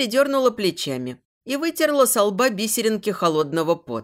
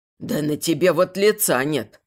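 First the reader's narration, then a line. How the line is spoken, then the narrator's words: Old man's snort. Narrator (Russian): хмыкнул старик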